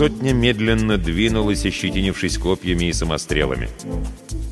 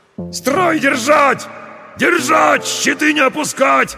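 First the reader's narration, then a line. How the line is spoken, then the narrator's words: Shouted orders. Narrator (Russian): орали десятники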